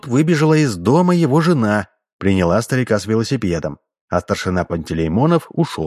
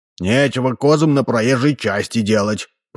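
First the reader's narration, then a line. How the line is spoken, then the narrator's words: Grumbled. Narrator (Russian): пробурчал Ложкин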